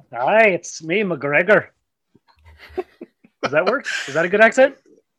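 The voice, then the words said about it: Put-on Scottish accent, fairly decent. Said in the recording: “If only he had some sort of funny accent that we could pinpoint where he's from. ... Yes, that's not bad. That's not bad. It's probably just as good as mine.”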